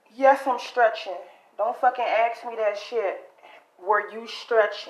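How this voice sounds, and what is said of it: Usual voice. Nothing is said of it.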